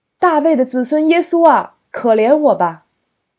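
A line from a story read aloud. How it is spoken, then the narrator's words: Blind man crying out. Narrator (Chinese): 瞎子一听这话，就喊叫起来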